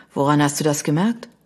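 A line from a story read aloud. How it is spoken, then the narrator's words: Sighing. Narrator (German): seufzte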